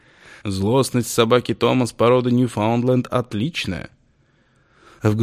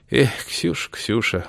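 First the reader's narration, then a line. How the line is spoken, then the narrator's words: Sighing. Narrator (Russian): вздохнул Августин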